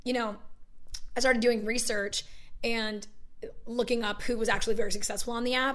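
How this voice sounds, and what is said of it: Hoarse, partly lost voice. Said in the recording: “sorry about my voice. I lost it last night ... loses her voice”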